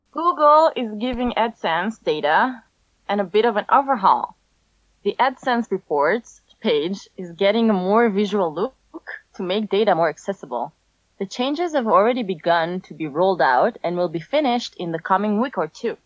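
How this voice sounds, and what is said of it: Foreign accent, 'look' sounds like 'Luke'. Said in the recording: “your accent makes l- look sound like Luke ... I have a cute accent ... I like your accent ... you have like this like Jean Claude Van Damme thing going on”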